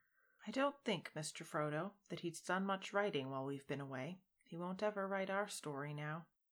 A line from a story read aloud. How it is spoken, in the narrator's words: Sam said softly